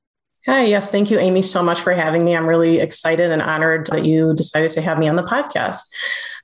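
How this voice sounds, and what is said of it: Cleveland, Ohio accent. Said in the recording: “Born and raised in Cleveland, Ohio. Still live here, if you can't tell by the accent.”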